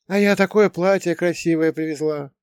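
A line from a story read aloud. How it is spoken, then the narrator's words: Sighing woman. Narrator (Russian): вздохнула она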